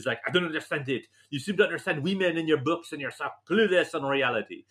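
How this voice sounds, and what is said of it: Exaggerated comic French accent. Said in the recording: “my wife, she's French. I can't do her accent. I can only do Inspector Clouseau. ... you do that actually, Clouseau, very well.”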